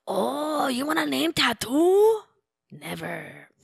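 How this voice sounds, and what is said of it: Mixed Mexican-Japanese put-on accent. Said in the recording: “a different accent ... I would say like a mixture of Mexican and Japanese ... A Mapanese”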